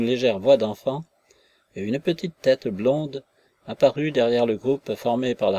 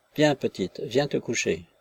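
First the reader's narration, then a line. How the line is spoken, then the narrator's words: Gentle. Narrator (French): disait doucement le forçat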